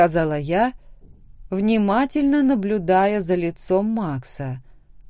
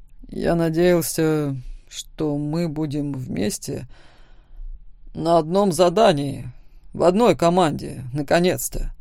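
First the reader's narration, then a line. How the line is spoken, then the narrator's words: Displeased mutter. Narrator (Russian): Недовольно пробормотал Макс, совершенно не реагируя на мои слова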